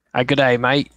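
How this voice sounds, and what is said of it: Attempted Australian accent. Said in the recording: “I'm going to try to do my best Aussie accent ... I don't think I could do a very good one, though.”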